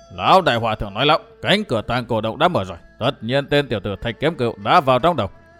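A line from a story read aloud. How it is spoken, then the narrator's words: Scornful nasal snort. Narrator (Vietnamese): Đầu lâu bảo chủ hừ bằng giọng mũi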